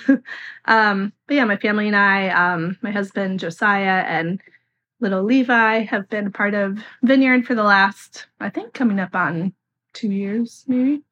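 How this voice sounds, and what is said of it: Voice affected by illness. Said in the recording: “Excuse my voice. I'm fighting a bug”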